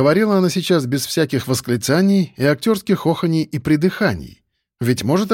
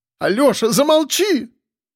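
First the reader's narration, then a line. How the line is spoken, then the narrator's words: Shouting woman. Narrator (Russian): закричала вдова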